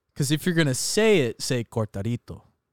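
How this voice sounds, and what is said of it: Says a Spanish word with an accent. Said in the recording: “I have enough respect to have a little accent for it.”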